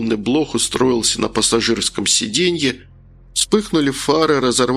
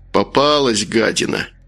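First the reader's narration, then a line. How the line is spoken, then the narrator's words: Grumbling. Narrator (Russian): проворчал Макар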